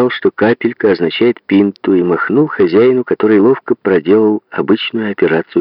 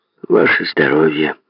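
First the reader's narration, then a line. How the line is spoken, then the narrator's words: Muttered. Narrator (Russian): буркнул он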